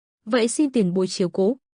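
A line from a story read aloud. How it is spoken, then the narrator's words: Smiling reply. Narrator (Vietnamese): Lộ Thần mỉm cười đáp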